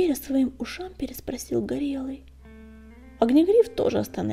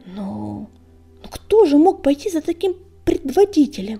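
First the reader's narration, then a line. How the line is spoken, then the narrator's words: Timid babbling. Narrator (Russian): пролепетал Горелый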